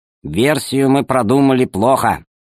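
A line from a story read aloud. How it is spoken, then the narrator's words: Stern. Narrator (Russian): сказал строго археолог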